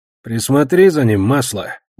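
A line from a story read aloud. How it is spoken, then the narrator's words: Gruff grumble. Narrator (Russian): буркнул леденец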